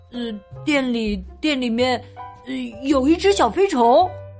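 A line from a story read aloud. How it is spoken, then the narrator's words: Stammering. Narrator (Chinese): 大卫结结巴巴的说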